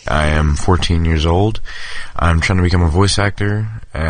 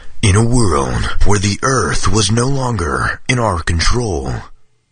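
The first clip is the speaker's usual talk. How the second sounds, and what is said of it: Deep movie trailer narrator voice. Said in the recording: “my movie trailer guy impression ... the big voice guy for the movie trailers”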